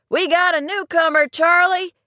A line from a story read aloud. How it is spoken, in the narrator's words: Skip called out